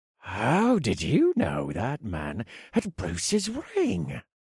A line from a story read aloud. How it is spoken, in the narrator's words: Carlisle asked in a breathy voice